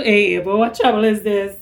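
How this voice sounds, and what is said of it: Put-on Trinidadian accent. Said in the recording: “just want to hear me talk with the accent? ... the secretary from Trinidad”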